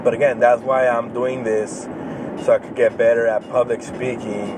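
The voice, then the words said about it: Hispanic accent with slight lisp. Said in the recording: “a speech lisp and accents. You know, I'll mispronunciate some words. You know, my Hispanic accent will come out.”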